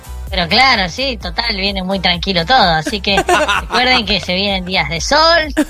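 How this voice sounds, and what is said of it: Distorted high-pitched helium-like voice. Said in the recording (Spanish): “Salió con la voz distorsionada ... Tiene la voz de Helio, ¿no? ... Sí, tiene la voz de Helio”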